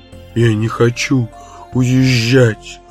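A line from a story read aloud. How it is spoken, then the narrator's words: Sobbing. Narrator (Russian): рыдала Слайти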